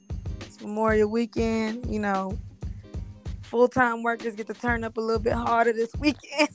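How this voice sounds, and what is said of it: Hoarse, worn-out voice. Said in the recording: “Excuse my voice. ... I done turned up a little bit too hard, so my voice kind of gone.”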